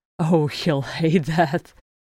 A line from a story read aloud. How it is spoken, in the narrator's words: Bomber gasped